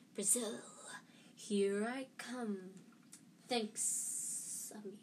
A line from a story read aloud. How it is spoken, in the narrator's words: a low, hissing voice said